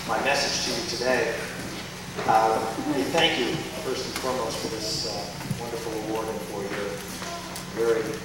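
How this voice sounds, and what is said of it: Hoarse, strained voice. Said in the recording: “apologize for my voice. I am getting over a case of laryngitis”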